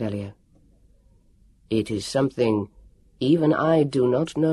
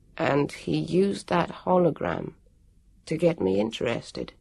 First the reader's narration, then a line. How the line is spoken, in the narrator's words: Jonathan said mournfully